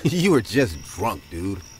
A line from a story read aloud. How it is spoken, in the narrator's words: He laughed and said